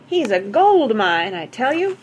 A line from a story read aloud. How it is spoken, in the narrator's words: cried one